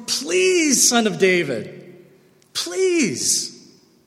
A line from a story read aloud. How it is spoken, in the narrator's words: the homeless guy yells out even more